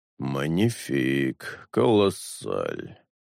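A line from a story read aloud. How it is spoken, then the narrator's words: Muttered. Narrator (Russian): пробормотал Ремора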